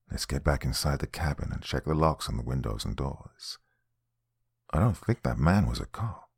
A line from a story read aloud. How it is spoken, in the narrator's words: quietly said